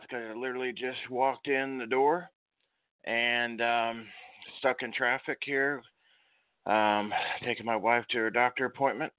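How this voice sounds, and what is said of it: Out of breath, breathless speech. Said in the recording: “out of breath”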